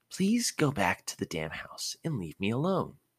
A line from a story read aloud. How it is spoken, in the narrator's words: Ino said to him in a sickly sweet voice that actually put a chill down his spine